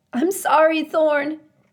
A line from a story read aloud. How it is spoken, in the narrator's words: Finally, she cried out